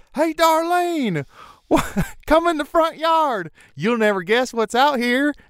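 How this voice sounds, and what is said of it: Yelling in a Southern accent. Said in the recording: “in a Southern accent yelling”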